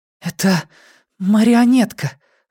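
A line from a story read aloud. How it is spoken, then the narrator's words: Hoarse, strained. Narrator (Russian): выдавила она хрипло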